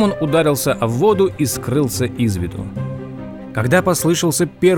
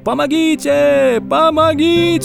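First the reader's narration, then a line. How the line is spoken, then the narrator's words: Shouted. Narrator (Russian): закричал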